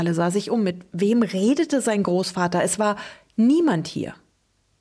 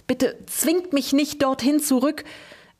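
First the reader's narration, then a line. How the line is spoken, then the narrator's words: Whimpering. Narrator (German): wimmerte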